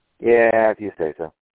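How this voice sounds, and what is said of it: Flat, unconvinced sarcastic delivery. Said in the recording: “You hear the conviction in my voice, right?”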